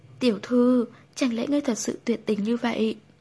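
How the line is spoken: Crying loud plea. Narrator (Vietnamese): Hồng Hạnh khóc lóc, không để ý mọi thứ mà kêu to

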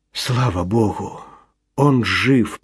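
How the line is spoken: Whisper. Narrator (Russian): прошептал Чарльз

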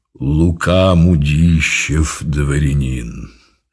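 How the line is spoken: Solid deep bass. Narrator (Russian): произнес солидным басом

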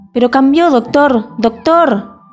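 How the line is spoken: Shout. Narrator (Spanish): gritó Charlie

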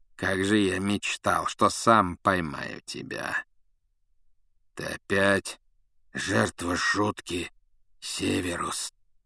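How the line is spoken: Rasping. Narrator (Russian): прохрипел Блэк

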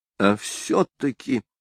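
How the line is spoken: Gloomy, to herself. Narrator (Russian): мрачно сказала она самой себе

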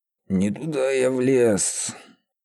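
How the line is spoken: Doomed sigh, sob. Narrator (Russian): Обреченно вздохнул Феодор и всхлипнул

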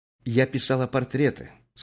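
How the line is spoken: Calm. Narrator (Russian): сказала она уже спокойно

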